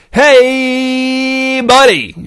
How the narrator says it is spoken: shouted Clint in a way that Buddy had never heard him shout before

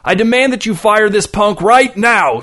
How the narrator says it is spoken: screamed the customer, red with rage

